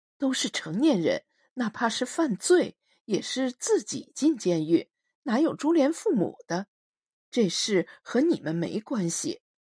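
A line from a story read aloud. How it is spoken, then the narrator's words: Slow, deliberate. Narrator (Chinese): 司马笑欧一个字一个字的说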